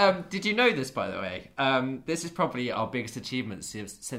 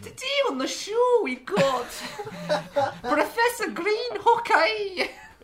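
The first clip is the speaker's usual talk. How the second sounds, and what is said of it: Lorraine Kelly impression, Scottish accent. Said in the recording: “my Lorraine Kelly impression”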